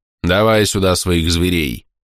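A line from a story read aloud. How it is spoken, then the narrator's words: Amused grumbling teacher. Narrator (Russian): проворчал учитель, явно наслаждаясь моим замешательством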